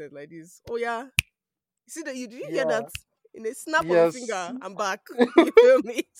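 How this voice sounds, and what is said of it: Nigerian accent. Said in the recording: “if I want to switch back to my Nigerian accent”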